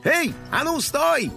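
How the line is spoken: Shout. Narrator (Russian): обернувшись, крикнул сыщик

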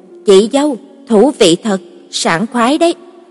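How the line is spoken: Men laughing loudly. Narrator (Vietnamese): Mấy người đàn ông cười lớn

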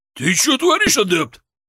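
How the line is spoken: Roar. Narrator (Russian): Взревел Григорий

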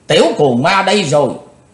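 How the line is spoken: Loud shout. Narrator (Vietnamese): Tên đứng đầu quát lớn

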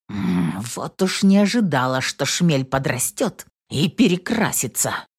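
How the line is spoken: Angry. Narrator (Russian): Зло проговорила Инесс

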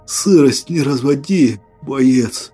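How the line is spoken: Hoarse. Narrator (Russian): прохрипел

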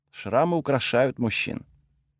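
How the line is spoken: Quiet. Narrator (Russian): Брана тихо произнесла

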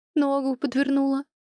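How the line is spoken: Whimpering. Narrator (Russian): проскулила Мира

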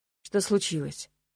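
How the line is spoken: Gloomy, through gritted teeth. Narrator (Russian): мрачно процедил некромант

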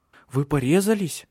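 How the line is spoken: Frightened question. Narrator (Russian): испуганно спросила Силия

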